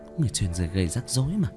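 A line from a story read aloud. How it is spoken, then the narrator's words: Muttering. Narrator (Vietnamese): Cố Văn lẩm bẩm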